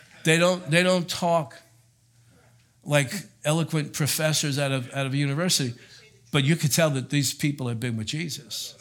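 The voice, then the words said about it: North Jersey accent. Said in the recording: “if you're not used to a North Jersey accent, you might lose some words once in a while”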